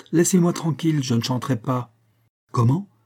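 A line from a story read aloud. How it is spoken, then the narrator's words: Exclaiming. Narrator (French): s'écria celui-ci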